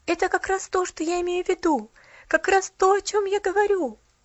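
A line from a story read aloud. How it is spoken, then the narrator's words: Excited. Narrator (Russian): Взволнованно подхватила Полиана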